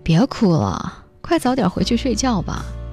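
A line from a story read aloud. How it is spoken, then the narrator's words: Cold, indifferent man. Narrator (Chinese): 那个当初可以每月都飞到大洋彼岸只为见他一面的痴情男人，如今都懒得去看他一眼，只是冷冷地说了一句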